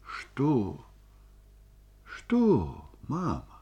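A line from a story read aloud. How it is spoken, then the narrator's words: Tender question. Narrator (Russian): спросил он нежно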